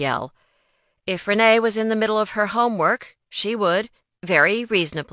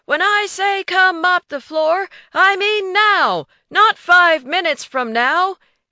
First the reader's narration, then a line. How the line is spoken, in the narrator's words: he would yell